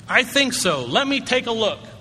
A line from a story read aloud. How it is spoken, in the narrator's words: The private said cheerfully